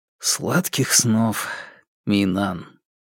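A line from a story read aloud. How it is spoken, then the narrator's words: Soft whisper. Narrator (Russian): Фанму тихонько прошептал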